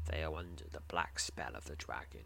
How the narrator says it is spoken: he says grimly

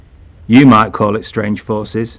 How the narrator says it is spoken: he said gloomily

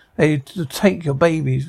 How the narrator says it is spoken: the crowd groans

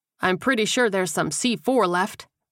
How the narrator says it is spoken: Baker piped up

